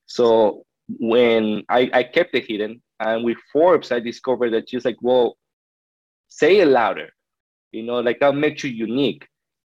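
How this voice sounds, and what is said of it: Foreign accent in English. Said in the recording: “my accent”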